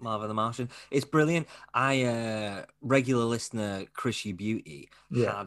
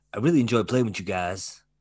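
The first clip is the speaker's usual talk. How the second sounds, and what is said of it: Imitates another person's voice. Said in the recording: “That's my Michael Jordan impression.”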